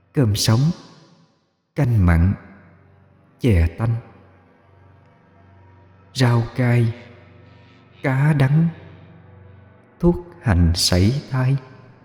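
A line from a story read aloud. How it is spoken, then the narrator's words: Soft murmuring. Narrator (Vietnamese): Mai, mỗi cái móng là một lời thủ thỉ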